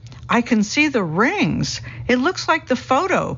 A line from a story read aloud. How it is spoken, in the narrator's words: people exclaim with delight